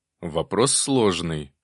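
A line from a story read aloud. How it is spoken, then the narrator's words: Snort. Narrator (Russian): хмыкнул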